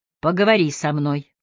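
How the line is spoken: Firm request. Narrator (Russian): попросил Алан твердым голосом

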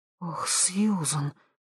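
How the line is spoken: Whispered. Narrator (Russian): прошептала Хелен

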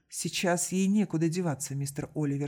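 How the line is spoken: Calm reply. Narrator (Russian): спокойно ответил Козицкий

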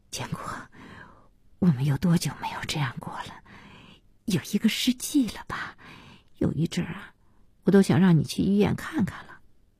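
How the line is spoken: Tearful murmur. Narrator (Chinese): 小西被这笑感动得要哭，嘴里喃喃的

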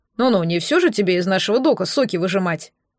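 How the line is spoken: Snorting. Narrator (Russian): хмыкнул

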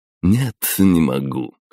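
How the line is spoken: Snorting grunt. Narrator (Russian): хмыкнул управляющий

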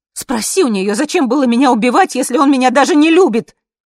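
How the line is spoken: Yelling. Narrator (Russian): заорала я

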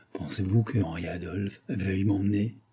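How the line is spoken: Spoken softly. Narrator (French): ce qu'elle disait tout bas

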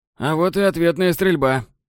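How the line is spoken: Grumbled. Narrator (Russian): проворчал Читэм Уит

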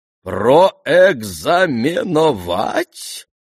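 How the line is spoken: Astonished drawl. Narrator (Russian): Протянула генеральша и в глубочайшем изумлении

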